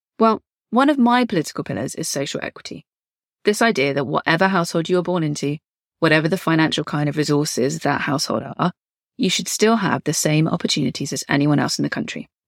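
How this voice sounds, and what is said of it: Southern English accent. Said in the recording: “growing up on a pretty rough council estate in the south of England. ... This accent was no joke then”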